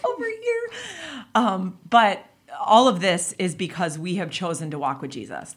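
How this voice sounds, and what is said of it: Choked-up emotional voice. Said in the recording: “little choked up”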